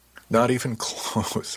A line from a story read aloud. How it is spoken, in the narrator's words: laughed